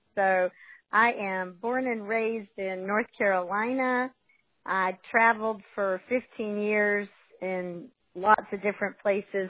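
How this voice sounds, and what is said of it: Southern US accent. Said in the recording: “I am very guilty of having a Southern accent ... I caught all kinds of grief about my Southern accent”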